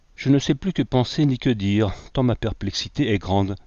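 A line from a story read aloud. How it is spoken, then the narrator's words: Discouraged sigh. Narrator (French): soupira Brainerd découragé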